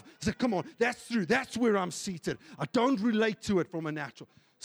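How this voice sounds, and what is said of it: Shouting. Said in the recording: “Sorry if I'm shouting a little bit”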